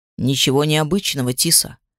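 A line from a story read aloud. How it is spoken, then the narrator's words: Smirking demon muttering. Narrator (Russian): с усмешкой пробормотал один из демонов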